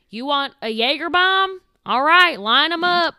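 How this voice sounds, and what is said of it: Put-on rural Iowa accent. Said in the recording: “what is that accent? Nobody talks like that in Iowa. ... A lot of people talk like that in Iowa.”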